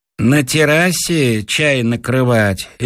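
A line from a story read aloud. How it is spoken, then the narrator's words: Lazy question, servant. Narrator (Russian): лениво спрашивает меня мой слуга Ленька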